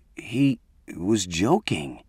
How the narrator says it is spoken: stammered

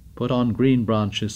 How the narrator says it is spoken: said Morris

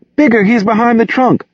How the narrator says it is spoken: the girl whimpered

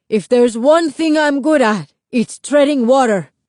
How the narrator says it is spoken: Lito yelled back

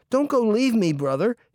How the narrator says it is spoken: he cried

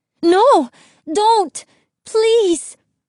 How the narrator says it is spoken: she cried

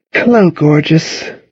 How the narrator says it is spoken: she cooed

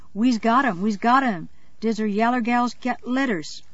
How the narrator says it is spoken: a chorus of voices shouting

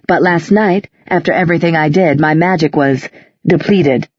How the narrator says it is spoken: Magnus said crossly

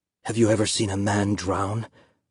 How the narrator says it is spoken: Papa asked in a whisper

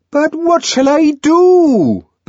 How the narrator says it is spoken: Bernard wailed

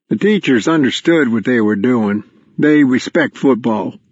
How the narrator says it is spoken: Crow said

